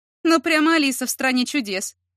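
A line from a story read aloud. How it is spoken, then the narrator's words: Sarcastic snort. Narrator (Russian): язвительно хмыкнула она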